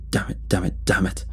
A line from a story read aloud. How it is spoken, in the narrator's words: the driver muttered